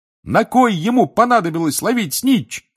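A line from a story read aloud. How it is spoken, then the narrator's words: Excited shouting. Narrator (Russian): кричал Рон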